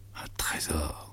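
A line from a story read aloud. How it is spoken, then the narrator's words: Murmured. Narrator (French): murmura-t-il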